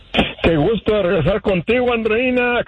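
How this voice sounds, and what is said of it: Put-on radio announcer voice. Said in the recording (Spanish): “¿Qué te parece mi nueva voz de locutor?”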